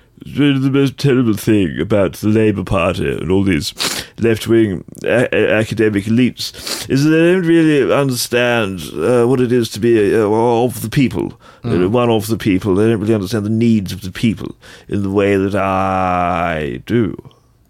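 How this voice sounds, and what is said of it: Imitates another person's voice, villainous. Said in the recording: “like a villain from Bloodborne ... Kind of comes ghosting down the corridor ... That was a hallucinogenically good impression.”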